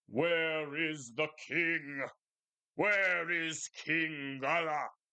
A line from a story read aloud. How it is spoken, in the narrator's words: roared the giant